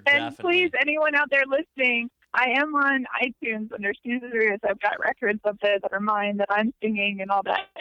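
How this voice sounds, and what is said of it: Squeaky, unusual talking voice. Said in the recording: “my squeaky, weird voice, talking voice”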